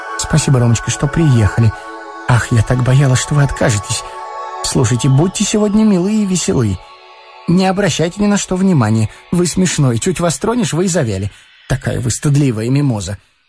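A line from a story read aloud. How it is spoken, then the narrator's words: Fast, hushed. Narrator (Russian): она говорила быстро и вполголоса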